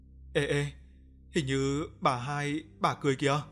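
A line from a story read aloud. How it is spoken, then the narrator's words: Frightened, trembling. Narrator (Vietnamese): thằng Huy mặt tái nhợt, nó run rẩy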